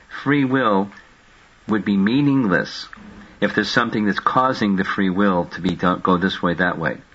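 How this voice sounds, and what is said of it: Deliberately slow speech. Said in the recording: “say it slowly”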